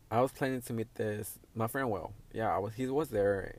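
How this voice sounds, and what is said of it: Speaks English with an accent. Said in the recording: “I hate fucking saying a lot of words in English. Because I'm a fucking accent”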